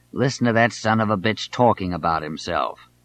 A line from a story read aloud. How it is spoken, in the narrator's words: Albert Thomas of Houston would sit staring at Johnson, snarling sotto voce